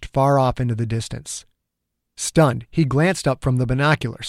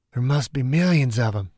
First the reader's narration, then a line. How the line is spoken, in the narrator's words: Dew muttered, the horror creeping across his skin